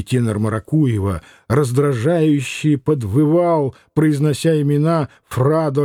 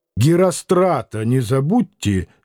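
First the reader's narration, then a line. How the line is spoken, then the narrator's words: Angry. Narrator (Russian): сердито сказал Самгин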